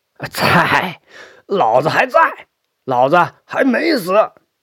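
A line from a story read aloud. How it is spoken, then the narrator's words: Loud answer. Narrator (Chinese): 他会大声的答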